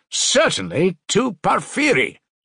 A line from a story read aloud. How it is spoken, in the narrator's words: Razumihin shouted in extraordinary excitement